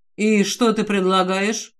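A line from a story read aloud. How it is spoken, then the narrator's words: Completely calm question. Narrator (Russian): Абсолютно спокойно спрашивает Алистер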